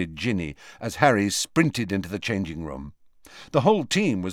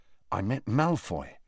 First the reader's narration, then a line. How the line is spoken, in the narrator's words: Harry told her quietly